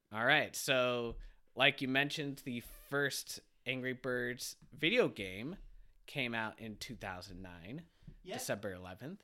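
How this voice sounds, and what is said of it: Stuffy congested voice. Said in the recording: “I have a cold. If I sound a little stuffy,”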